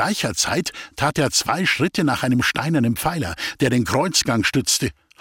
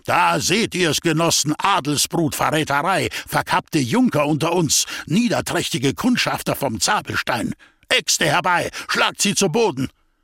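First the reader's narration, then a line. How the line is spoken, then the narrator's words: Roaring. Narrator (German): brüllte er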